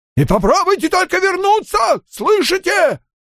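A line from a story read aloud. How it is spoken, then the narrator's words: Yelling after them. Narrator (Russian): Орал он им вдогонку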